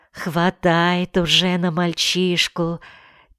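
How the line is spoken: Quiet laugh. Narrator (Russian): Тихо засмеялась Клава

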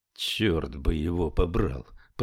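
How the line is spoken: Muttering. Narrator (Russian): пробормотал Флетчер

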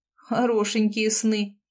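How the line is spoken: Involuntary snort. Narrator (Russian): не выдержав, хмыкнул Айдар

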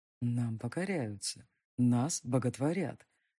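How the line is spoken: Seductive, tempting whisper. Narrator (Russian): Вкрадчивый, искушающий шепот

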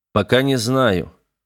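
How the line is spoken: Sighing. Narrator (Russian): Карбид вздохнул

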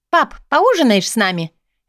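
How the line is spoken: Cheerful chirping. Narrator (Russian): Весело щебечет Ленка

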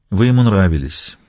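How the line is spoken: Soft. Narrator (Russian): мягко произнес Костельно

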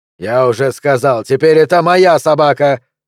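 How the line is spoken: Angry bark. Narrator (Russian): рявкнул Монти

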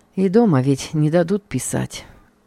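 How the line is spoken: Sighing. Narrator (Russian): вздохнул я

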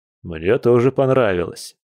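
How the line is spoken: Man's wry grunt. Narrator (Russian): хмыкнул мужчина

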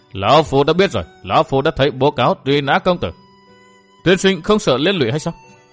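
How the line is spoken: Laughing. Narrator (Vietnamese): Bách Hoa Trang chủ bật cười

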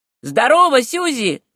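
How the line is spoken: Shout. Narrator (Russian): крикнул он

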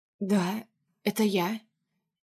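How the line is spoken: Quiet answer. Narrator (Russian): отвечаю тихо

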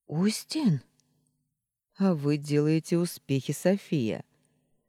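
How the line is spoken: Laughing. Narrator (Russian): Смеясь

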